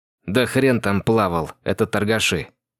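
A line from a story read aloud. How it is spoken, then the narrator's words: Angry. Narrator (Russian): Зло проговорил Андрей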